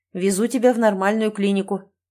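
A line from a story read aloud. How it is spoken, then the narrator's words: Sharp, emotional reply. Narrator (Russian): немного резко отвечаю я, потому что эмоции зашкаливают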